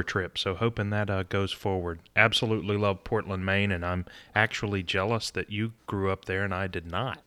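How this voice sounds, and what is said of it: Southern accent, smooth radio-announcer voice. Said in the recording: “I get a little Blake Shelton meets like a radio announcer from you here... I grew up in Southern Virginia... I speak differently than most people from Portland, Maine... you have a phenomenal radio voice... Or a podcast voice”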